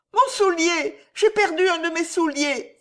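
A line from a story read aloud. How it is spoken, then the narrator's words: Exclaimed. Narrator (French): s'écria Patty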